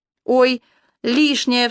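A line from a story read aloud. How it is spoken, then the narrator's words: Cried out. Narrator (Russian): вскрикнула Танька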